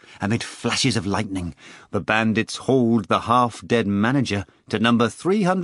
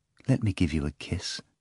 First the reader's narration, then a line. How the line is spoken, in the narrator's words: the girl said tenderly